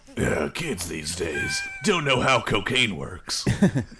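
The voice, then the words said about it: Grumbling Clint Eastwood impression. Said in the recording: “grumble about these kids today in a Clint Eastwood voice”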